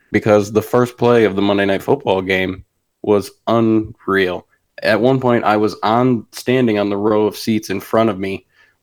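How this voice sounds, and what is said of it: Raspy, deeper hoarse voice. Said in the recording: “it's a little raspy, it's a little deeper. It's not as feminine as it usually is ... screaming at the top of my lungs”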